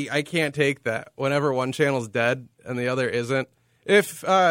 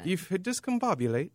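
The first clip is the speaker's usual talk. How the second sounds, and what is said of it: Put-on British accent. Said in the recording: “You should say that with a British accent. ... Yes. That's better.”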